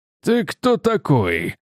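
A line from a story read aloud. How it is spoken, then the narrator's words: Said through gritted teeth. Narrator (Russian): процедил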